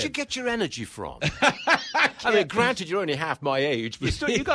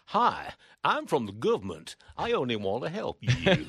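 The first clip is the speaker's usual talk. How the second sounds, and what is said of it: Poor fake American accent. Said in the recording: “That was an appalling attempt at an American accent.”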